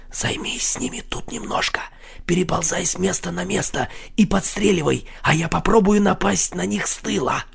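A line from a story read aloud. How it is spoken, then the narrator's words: Whispered in ear. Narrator (Russian): Марсель прошептал ему на ухо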